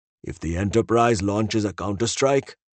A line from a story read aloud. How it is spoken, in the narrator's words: Patel answered gravely